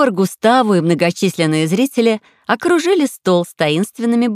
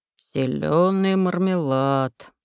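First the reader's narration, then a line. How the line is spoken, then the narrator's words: Muttered under breath. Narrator (Russian): пробурчал себе под нос Густаво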